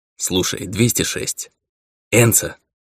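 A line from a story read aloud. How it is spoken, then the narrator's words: Sharp correction. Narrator (Russian): резко поправил его марсианин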